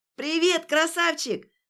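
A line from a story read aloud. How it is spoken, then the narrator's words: Yelling right at ear. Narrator (Russian): заорала у самого уха Варя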